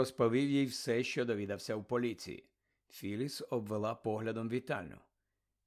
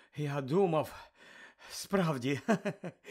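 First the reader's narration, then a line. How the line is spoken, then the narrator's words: Laughing. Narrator (Ukrainian): засміявся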